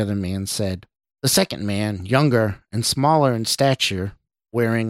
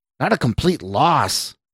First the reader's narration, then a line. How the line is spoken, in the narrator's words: the suited man shouted